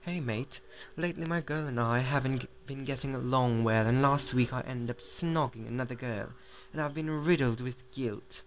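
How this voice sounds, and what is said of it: Put-on English accent. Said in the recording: “probably I should read this in an English accent. ... Ooh, this is fun.”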